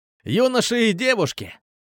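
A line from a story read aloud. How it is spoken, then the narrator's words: Exclaiming. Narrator (Russian): воскликнул он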